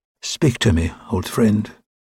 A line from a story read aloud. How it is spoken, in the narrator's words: whispered